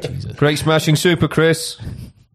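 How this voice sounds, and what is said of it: Put-on regional English accent. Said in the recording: “Do that English. ... Didn't do the regional accent. ... Do the accent, go on.”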